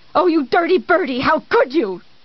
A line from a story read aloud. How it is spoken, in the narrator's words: He spoke rapidly, urgently